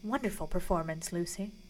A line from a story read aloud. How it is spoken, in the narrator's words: He bent down closer to her and murmured